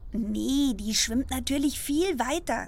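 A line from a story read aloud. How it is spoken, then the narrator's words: Plain. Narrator (German): sagte ich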